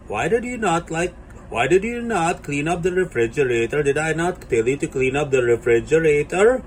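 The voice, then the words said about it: Put-on Indian accent. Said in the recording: “she actually spoke in the accent of the Indian woman ... we know that this is Indian accent.”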